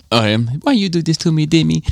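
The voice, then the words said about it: Put-on Italian accent. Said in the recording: “is that an Italian accent? ... Yeah.”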